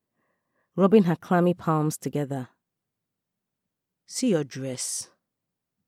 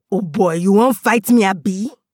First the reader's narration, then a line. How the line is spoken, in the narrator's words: He yelled